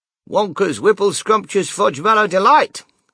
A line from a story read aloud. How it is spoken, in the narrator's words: cried Grandpa George